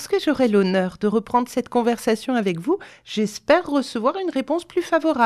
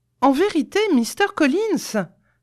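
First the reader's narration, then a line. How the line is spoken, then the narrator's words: Heated exclamation. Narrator (French): s'écria Elisabeth avec chaleur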